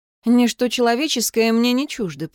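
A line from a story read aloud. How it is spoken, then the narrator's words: Mumbling. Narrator (Russian): пробормотала я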